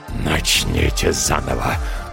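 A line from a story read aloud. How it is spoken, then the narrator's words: Growled, cooling slightly. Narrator (Russian): прорычал дьявол, чуть остывая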